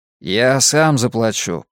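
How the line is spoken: Sulky grumble. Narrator (Russian): проворчал Клод, насупившись

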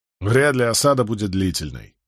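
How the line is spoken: Snorting. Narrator (Russian): фыркнул Барак

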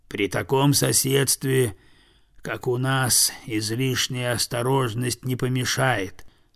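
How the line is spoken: Very quiet objection. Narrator (Russian): совсем тихо возразил медведь

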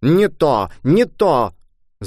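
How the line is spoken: Shouting. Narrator (Russian): закричал дядюшка

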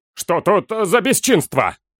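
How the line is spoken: Foreman barking. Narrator (Russian): рявкнул выскочивший на шум десятник

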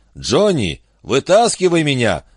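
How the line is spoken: Yell. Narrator (Russian): заорал Гард

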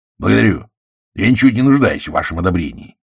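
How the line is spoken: Cold. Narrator (Russian): холодно ответствовал Блант

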